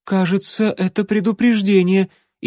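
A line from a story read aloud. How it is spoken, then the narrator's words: Frightened babble. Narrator (Russian): испуганно пролепетал Алан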